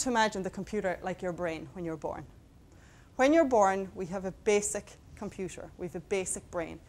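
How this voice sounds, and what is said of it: Irish Mayo accent. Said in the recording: “I got a Mayo accent”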